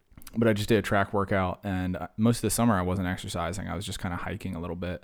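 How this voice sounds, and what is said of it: Worn-out, tired-sounding voice. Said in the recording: “You can even hear it in my voice. Like I'm falling apart ... You can hear it in my voice. I sound like I'm going to fall apart here. I just did a track workout, and it kicked my tush.”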